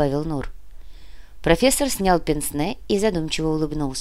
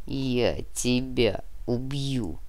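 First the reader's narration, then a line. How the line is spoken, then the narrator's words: Dull, muffled threat. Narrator (Russian): глухо пообещал Нар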